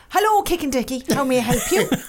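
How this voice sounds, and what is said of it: Put-on Irish accent. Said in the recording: “I don't know why I want to do it in the Irish accent. ... Go on, do it.”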